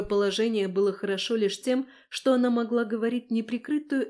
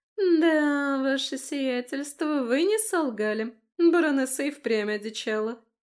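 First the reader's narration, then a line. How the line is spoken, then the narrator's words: Drawling. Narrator (Russian): протянула Августа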